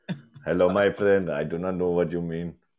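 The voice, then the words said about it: Mock Arabic-sounding foreign accent. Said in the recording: “Can you do like a Chinese or like an Asian accent? ... That sounds more Arabic.”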